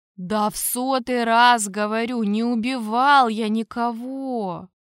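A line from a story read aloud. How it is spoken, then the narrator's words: Tired. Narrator (Russian): устало произнес я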